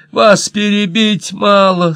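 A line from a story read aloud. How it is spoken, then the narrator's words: Whining. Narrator (Russian): скулила мисс Борден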